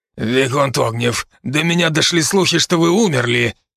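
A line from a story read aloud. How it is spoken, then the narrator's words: Hoarse, barely restrained fury. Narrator (Russian): Хриплым от едва сдерживаемой ярости голосом произнес незваный гость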